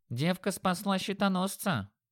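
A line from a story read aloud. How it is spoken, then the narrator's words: Thin goblin voice. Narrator (Russian): тонким голоском заметил гоблин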